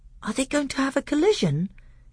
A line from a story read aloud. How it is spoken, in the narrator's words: he asked in an awestruck voice